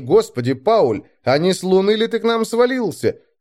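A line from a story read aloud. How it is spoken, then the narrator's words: Alarmed exclamation. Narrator (Russian): воскликнул в великом смятении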